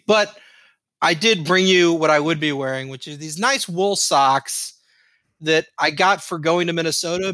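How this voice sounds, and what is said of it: Midwest accent, 'socks' like 'sacks'. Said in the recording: “You even say socks with a Midwest accent, dude. You said sacks.”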